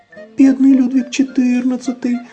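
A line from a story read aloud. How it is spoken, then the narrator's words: Squeaking. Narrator (Russian): запищала Тутта Карлсон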